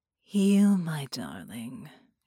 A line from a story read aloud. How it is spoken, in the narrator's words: she sighed